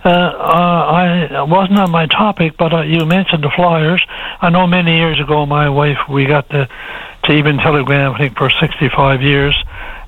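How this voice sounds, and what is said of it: Voice sounds a bit off. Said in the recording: “my voice is a bit off because I just recovered from the flu”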